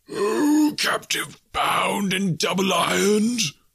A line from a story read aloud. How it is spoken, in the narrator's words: cried the phantom